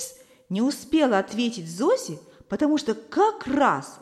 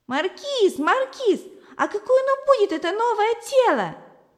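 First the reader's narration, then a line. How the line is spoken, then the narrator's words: Shouting. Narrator (Russian): кричала Зося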